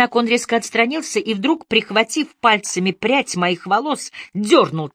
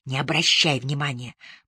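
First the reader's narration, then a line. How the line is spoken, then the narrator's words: Whisper. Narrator (Russian): прошептала я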